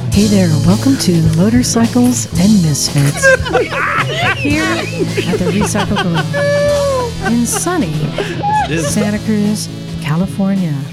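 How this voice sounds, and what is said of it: Mock public-radio announcer voice. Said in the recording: “That was my best NPR voice. ... That was good. ... No, yeah. It's not.”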